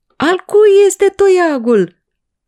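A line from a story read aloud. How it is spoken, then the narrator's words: Crowd shouting. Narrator (Romanian): a strigat poporul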